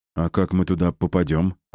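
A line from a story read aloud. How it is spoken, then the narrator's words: Timid question. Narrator (Russian): робко спросили они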